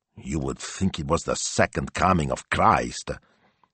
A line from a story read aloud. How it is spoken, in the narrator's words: Signor Speranza grumbled